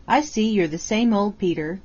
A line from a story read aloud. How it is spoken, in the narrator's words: said he